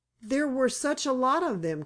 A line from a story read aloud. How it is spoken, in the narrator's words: cried Joe